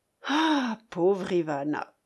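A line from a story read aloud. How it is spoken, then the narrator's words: Sighing man. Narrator (French): ajoutait, les yeux au ciel, avec un soupir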